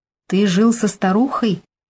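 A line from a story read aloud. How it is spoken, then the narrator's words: Calm, flat voice. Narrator (Russian): Голос звучал спокойно, вопрос был бесцветный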